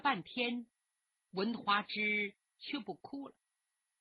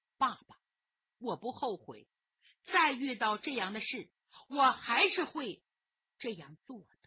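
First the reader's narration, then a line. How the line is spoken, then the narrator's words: Slight smile. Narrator (Chinese): 花枝微微一笑说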